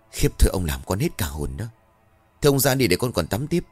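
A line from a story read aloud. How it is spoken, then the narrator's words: Trembling reproach. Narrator (Vietnamese): Bà run rẩy rồi trách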